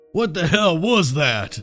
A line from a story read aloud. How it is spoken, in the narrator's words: asked, his voice gruff